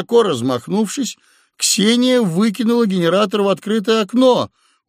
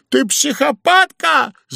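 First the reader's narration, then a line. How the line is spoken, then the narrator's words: Yelling. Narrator (Russian): завопил Удалов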